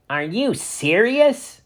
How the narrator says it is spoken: Ernie scoffed

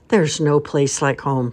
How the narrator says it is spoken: sighed the town mouse

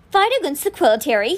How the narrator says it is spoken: he sneered

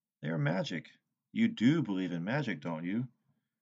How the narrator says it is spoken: Sylvanus sighed

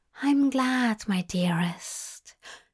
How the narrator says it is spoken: Zira whispered in his ear

